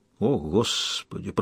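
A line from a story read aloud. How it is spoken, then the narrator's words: Muttered. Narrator (Russian): пробормотал Кайл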